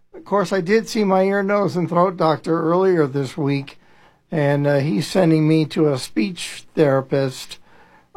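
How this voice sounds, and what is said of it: Very raspy voice. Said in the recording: “My voice is just not cooperating. ... It's always been raspy, but it's raspier than normal”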